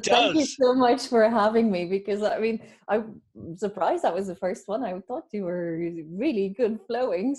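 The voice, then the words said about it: Slight Irish lilt, Belgian undertone. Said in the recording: “I detected a little bit of an Irish accent in there, as well as is it Dutch as well? ... I detected an Irish lilt in there.”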